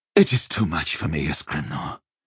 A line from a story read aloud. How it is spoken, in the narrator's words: he said wearily